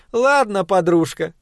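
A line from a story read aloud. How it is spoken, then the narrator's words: Laughing. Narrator (Russian): засмеявшись, произнесла Соня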